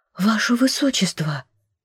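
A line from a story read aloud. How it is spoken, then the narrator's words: Breathless, frozen whisper. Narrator (Russian): выдохнула, не смея шевельнуться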